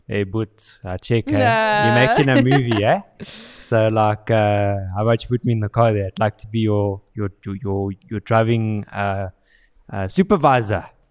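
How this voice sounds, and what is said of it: Put-on South African accent. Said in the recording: “he could hear the accent over the email ... This became a very South African joke.”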